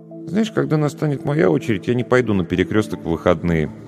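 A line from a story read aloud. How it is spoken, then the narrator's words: Thoughtful mutter. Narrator (Russian): задумчиво пробормотал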